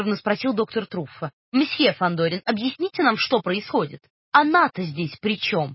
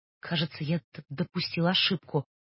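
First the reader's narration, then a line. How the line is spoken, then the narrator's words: Muttering. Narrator (Russian): пробормотал раз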